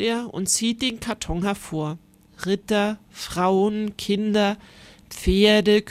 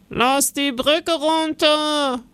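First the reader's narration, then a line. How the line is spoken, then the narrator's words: Guard's sudden call. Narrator (German): ruft plötzlich ein Wachmann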